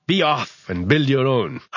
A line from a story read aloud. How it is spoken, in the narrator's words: Percival called out